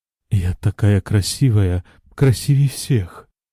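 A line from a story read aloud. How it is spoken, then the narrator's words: Sorrowful whisper. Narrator (Russian): горестно прошептала она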